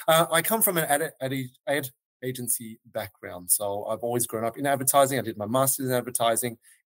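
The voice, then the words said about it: Australian accent. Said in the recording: “As you can tell, the reference even tells that I'm from Australia. In Melbourne. So thank you for understanding my accent.”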